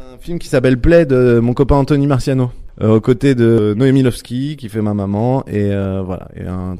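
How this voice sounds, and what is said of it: Usual voice. Nothing is said of it.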